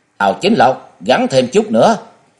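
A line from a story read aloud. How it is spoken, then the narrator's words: Loud shout mid-fight. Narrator (Vietnamese): Hồi Xuân Ông vừa đánh nhau với Miêu Như Đồng vừa hét lớn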